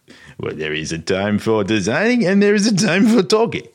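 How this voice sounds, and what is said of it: Exaggerated cartoonish French accent. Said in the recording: “do the accent ... my accent was much better after the few beers ... That just sounded like I was Pepe Le Pew.”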